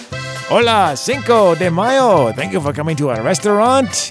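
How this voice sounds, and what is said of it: Weak put-on Mexican accent, Americanized. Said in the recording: “I can do a few accents ... That was still a little Americanized. You gotta get a little more oomph in there.”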